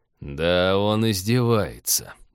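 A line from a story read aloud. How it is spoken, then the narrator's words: Almost admiring mutter. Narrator (Russian): почти восхищенно пробормотал Станислав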